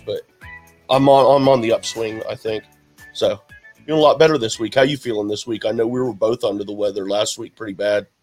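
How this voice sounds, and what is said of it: Slightly raspy voice. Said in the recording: “Forgive my slightly raspy voice, if you can notice”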